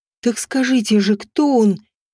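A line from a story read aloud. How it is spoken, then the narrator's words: Breathed out. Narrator (Russian): выдохнула я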